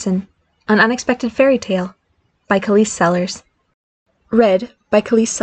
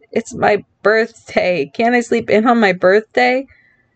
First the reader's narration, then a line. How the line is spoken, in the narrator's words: he groaned